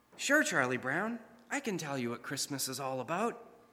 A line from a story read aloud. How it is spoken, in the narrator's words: his friend Linus, who's standing right in front of him, gently replies